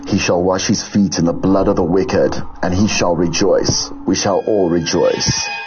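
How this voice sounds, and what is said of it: Scary voice. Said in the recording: “I'm going to try and put my scary voice on. Channeling exorcist. Channeling it. Channeling Freddy Krueger.”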